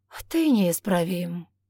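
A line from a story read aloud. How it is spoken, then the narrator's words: Heavy sigh. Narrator (Russian): тяжко вздохнул Матес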